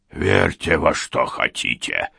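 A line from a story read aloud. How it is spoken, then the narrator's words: Snapping retort. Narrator (Russian): огрызнулся Вейер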